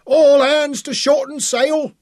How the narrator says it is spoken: Big Daniel's voice boomed out in the darkness

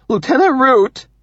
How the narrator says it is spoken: Benjamin says, his voice now high and trembly

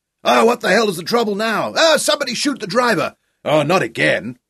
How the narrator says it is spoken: shouted by the angry heads that protruded from the windows of every coach

